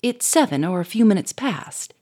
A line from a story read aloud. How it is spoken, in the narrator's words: he said sharply